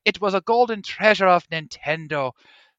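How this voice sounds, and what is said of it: Strained put-on accent. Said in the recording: “I'm going to stop this accent because it's already hurting my throat.”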